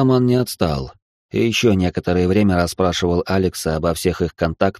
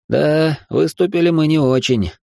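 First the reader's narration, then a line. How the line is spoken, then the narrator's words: Sigh. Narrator (Russian): вздохнул Тёма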